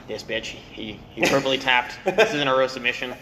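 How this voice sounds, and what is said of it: Impression of Gordon Ryan. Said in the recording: “That's a pretty good Gordon Ryan impression”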